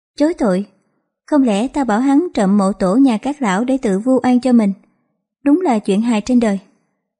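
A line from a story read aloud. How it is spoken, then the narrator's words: Cold scoffing. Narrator (Vietnamese): Giang Tiểu Lâu cười nhạt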